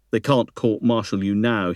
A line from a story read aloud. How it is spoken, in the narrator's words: he said